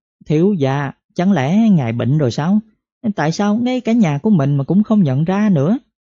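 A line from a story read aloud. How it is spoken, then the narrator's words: Giggling. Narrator (Vietnamese): A Hoàng lại cười khúc khích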